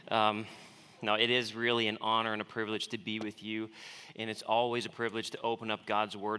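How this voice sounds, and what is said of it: Strong non-local accent. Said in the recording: “I will try to dull down the accent for you so you can understand what I'm saying”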